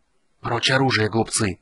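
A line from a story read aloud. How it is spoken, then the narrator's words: Hissing whisper. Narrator (Russian): просвистел шепот Рейслина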